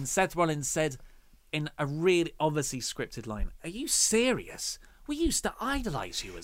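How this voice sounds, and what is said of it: Usual voice. Nothing is said of it.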